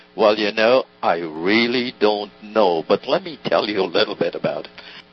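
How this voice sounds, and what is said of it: Slow drawling imitated voice. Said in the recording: “I can hear him start with that drawl”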